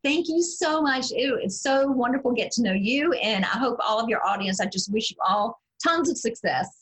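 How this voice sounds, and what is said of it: Southern US accent. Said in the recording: “a lady with a beautiful Southern accent”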